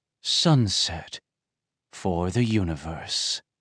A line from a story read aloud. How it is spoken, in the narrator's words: he muttered